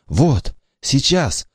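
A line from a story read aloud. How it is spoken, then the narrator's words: Boy whispering. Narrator (Russian): шепотом сказал Васе мальчик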